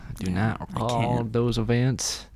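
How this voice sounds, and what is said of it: Southern accent, Bill Clinton impression. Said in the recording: “with a southern accent? ... That's just Bill Clinton, actually. ... that Arkansas.”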